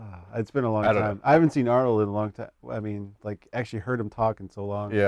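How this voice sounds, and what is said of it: Usual voice. Nothing is said of it.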